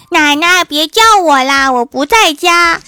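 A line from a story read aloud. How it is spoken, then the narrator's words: Loud and impatient. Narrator (Chinese): 郭晓霞把她给催急了，大声的说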